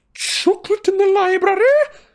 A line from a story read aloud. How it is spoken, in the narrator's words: she screamed